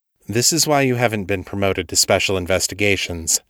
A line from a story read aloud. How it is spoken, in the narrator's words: David said